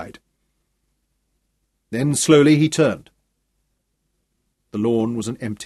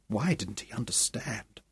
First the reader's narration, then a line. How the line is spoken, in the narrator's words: She asked softly